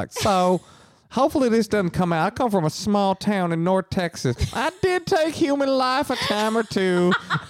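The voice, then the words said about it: Put-on North Texas accent. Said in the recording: “they've got a like very distinct accent.”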